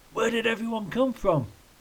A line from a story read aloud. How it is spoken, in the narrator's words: Ken shouted to be heard over the noise